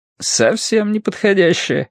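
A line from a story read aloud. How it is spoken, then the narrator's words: Cheerful agreement. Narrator (Russian): весело согласился Цянь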